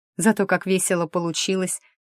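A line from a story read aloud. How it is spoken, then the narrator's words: Snort. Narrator (Russian): хмыкнула Кьяра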